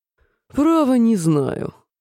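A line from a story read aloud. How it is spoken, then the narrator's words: Grumbling lion. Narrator (Russian): проворчал лев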